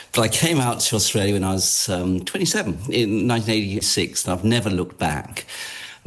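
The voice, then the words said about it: English accent. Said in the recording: “I'm English by origin, and I'm very bad at languages, so I haven't really picked up any other accent.”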